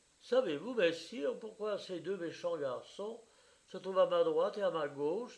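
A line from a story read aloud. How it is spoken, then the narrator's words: Plain. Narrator (French): demanda-t-elle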